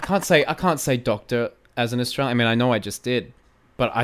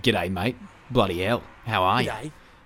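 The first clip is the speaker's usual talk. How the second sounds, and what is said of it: Stereotypical exaggerated Australian accent. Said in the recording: “how can I even do an Australian accent? ... I was trying to do the typical”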